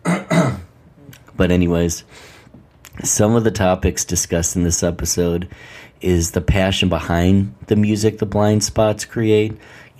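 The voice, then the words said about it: Strained, hoarse voice. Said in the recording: “Let me clear my throat, losing my voice from it even.”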